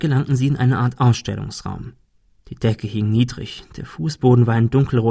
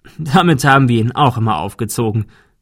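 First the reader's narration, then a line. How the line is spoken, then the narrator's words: Laughing. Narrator (German): der Notar lachte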